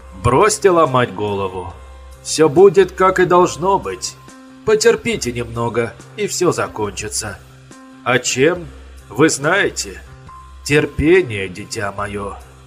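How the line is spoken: Calm mocking old man. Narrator (Russian): Спокойно насмешливый тон старика

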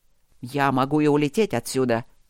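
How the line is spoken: Angry. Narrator (Russian): зло напомнил Люк

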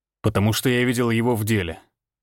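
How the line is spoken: Cold reply. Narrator (Russian): холодно ответил Всеволод

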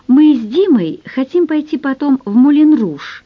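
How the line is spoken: Joyful girl. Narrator (Russian): радостно сообщила девушка

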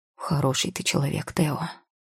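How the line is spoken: Man mumbling. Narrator (Russian): пробормотал мужичок

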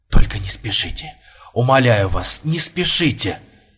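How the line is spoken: Whisper. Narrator (Russian): прошептал Бурмистров

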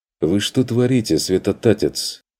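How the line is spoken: Stern, menacing. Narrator (Russian): Нахмурился он грозно

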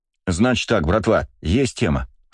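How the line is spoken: Plain. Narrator (Russian): сказал я

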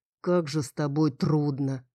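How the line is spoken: Older grumbling voice. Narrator (Russian): ворчал голос постарше

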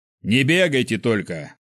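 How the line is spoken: Barked. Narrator (Russian): гаркнул один из них, хотя и немного поздно

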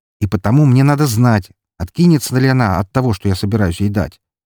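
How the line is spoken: Snapping retort. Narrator (Russian): огрызнулся Виктор

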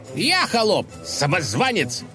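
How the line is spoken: Shouted reply. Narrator (Russian): заорал в ответ князь

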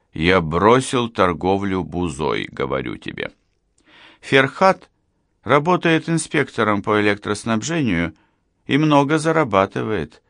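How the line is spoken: Plain. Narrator (Russian): сказала Раиха

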